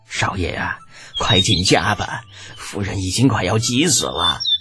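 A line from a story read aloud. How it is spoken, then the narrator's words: Tearful murmur. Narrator (Chinese): 抹了抹眼角 口中喃喃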